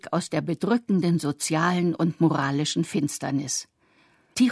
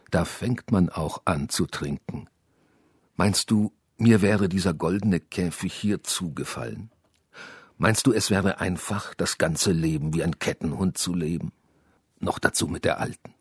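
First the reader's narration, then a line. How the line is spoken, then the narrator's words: Quiet answer. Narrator (German): antwortete Tichon Iljitsch leise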